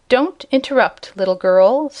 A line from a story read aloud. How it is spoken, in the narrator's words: said the Wogglebug